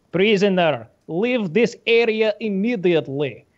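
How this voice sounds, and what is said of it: Croatian accent, robotic voice. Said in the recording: “They go in a Croatian accent... it's half Croatian, half RoboCop”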